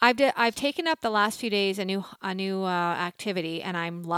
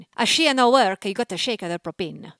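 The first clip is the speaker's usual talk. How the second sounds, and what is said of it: Put-on Italian accent. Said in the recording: “Do you want to hear my Italian accent? ... This is an Italian person telling you what's wrong with the fire, the propane. ... That's pretty good.”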